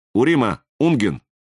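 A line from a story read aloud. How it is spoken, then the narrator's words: Plain. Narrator (Russian): говорит полковник Уэс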